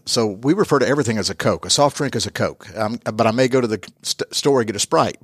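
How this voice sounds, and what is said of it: American Southern accent. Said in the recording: “I'm born and raised in the U.S., obviously, from my accent ... I'm from the Atlanta, Georgia area”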